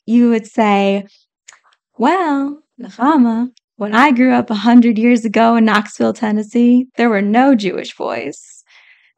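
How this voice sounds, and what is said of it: Imitated Southern accent. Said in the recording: “you have a lovely Southern accent, so I'm going to try to have one a little bit now”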